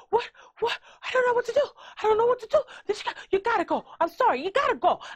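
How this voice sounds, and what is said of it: Panicked voice, New York-like accent. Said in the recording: “I don't know what kind of accent that she has. It's almost like a New York one. ... she's losing her fucking mind”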